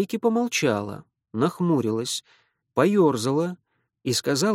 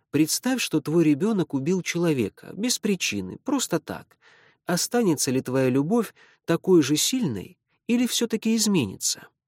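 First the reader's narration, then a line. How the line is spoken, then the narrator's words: Calm question. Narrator (Russian): Кто-то спокойно спросил ее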